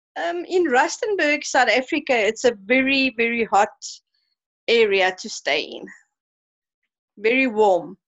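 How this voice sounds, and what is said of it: South African accent. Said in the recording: “I love your accent”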